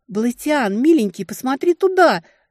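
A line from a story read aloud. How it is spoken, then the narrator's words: Desperate scream. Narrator (Russian): закричала в отчаянии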